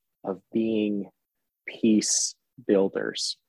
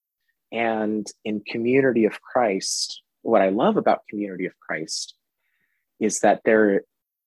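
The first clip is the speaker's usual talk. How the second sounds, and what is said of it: Choked-up, emotional voice. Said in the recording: “I'm getting choked up again”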